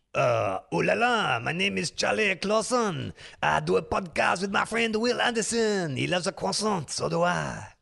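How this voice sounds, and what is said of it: Put-on French accent. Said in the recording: “throw some accents at me ... I think it's still very safe to do French”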